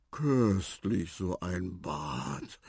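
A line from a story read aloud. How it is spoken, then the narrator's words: Snorting. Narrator (German): schnaubte auch Tante Harmonia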